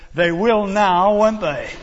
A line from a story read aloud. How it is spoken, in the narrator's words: triumphantly and said